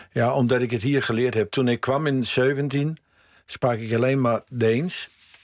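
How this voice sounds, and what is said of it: Light Danish accent, Amsterdam tones. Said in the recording (Dutch): “Je hebt een licht Deens accent, maar ook een Amsterdamse tongval.”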